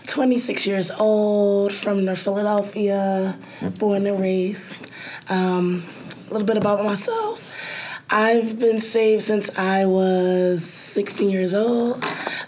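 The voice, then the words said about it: Slightly hoarse voice. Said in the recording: “Excuse my voice. I'm a little hoarse.”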